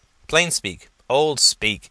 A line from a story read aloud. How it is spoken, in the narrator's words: said Gus